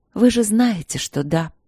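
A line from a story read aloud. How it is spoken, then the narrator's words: Tired. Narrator (Russian): устало ответила я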